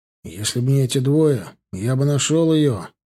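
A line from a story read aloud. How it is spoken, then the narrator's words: Grumbled. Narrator (Russian): буркнул Сизый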